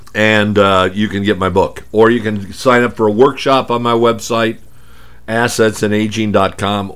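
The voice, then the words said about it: Strained, hoarse voice. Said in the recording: “I told you I was losing my voice today.”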